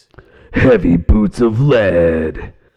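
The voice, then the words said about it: Gruff heavy metal singing voice. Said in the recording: “in your metal voice? ... I sound like I'm doing a monster truck rally. ... really good uh, heavy metal singing”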